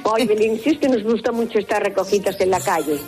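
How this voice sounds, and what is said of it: Put-on Galician Spanish accent. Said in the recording (Spanish): “habla con acento gallego”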